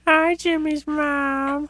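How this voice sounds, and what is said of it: Carl Wheezer impression. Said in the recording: “hit him with your Carl Weezer impression.”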